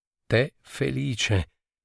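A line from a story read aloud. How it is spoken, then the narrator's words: Sighing. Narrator (Italian): sospirò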